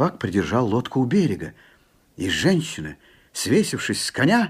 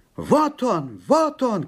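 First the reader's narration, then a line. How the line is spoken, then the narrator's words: Shepherd shouting. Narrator (Russian): кричал пастух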